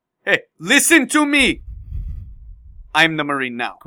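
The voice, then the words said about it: Put-on Somali accent. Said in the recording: “Great Somalian accent.”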